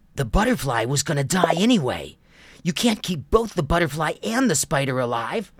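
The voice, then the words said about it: Ticked-off cartoon character voice. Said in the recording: “sounds like a ticked off Tai... I'll do the voice... Tai with a lot of attitude”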